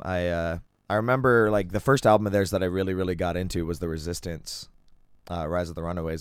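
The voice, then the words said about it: Hoarse, froggy voice. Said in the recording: “my voice is kind of getting all froggy on me”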